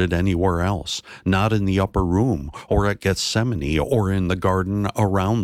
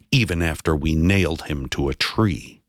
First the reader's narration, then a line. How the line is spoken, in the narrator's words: they spat the words